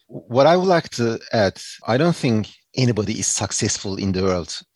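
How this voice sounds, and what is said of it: Non-native English accent. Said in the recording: “you have an accent, but your English and the speed at which you talk is wonderful”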